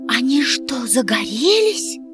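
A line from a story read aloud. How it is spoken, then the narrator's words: Whispered question. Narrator (Russian): шепотом спросила Гайди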